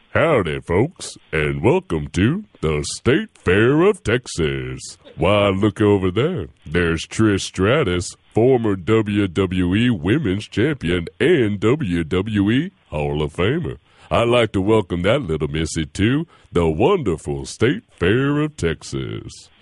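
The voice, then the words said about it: Big Tex announcer voice. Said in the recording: “give a Big Tex voice”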